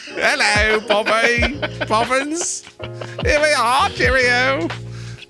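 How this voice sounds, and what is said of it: Put-on British accent. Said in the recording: “If you're in England and you hate our voices, let us know. ... Is our accent better or worse than Dick Van Dyke's?”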